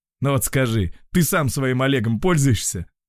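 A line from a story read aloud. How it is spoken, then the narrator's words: Snorting. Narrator (Russian): Антон хмыкнул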